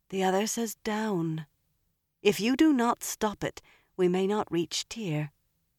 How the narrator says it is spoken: Elaine murmured

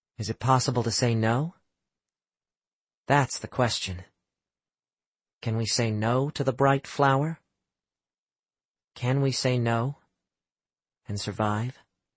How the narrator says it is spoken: In a dreamy voice, he said

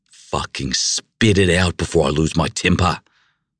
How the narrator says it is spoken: I growled

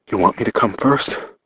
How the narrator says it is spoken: Her voice was just a breath of sound as she panted

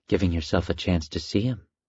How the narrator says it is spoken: it whispered

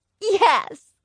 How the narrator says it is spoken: Fudge shouted back

